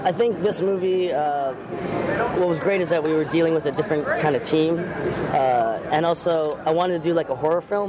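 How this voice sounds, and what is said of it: Slightly off, sick-sounding voice. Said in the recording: “I'm a little sick, so my voice is a little bit off ... my voice just tends to go, especially since I've been talking all day”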